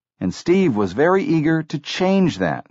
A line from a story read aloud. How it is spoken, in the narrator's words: said Lin